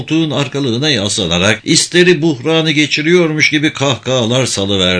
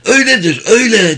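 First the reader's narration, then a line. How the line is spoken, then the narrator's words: Shout. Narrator (Turkish): diye bağırdı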